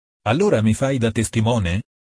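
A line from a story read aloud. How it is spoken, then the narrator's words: Plain question. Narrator (Italian): chiese Andrea Marcel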